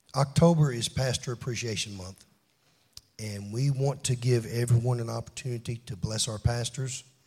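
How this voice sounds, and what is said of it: Strained, failing voice. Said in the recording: “my voice is about to go”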